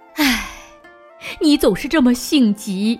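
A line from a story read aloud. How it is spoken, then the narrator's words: Sighing mother. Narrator (Chinese): 妈妈叹了口气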